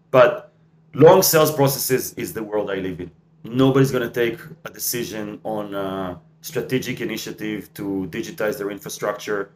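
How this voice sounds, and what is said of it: Non-native English accent. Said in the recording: “it's my accent that sometimes messes up the correct pronunciation”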